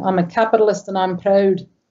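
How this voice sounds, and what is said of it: Put-on Scottish accent. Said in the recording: “In the Scottish accent, of course, because just a little. ... Yes, it could have been Scottish.”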